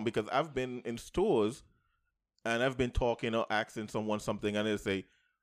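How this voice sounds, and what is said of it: Caribbean accent. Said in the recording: “I have a Caribbean accent”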